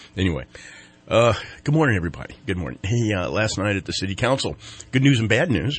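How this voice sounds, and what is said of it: Sick, strained voice. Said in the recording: “If you can't tell by my voice, I am in the midst of something that's going on, and I have it. ... when I blew my lungs out in the auctioneering part”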